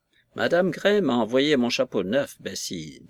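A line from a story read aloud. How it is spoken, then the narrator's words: Pathetic tone. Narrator (French): dit Madame Paulette d'un ton pathétique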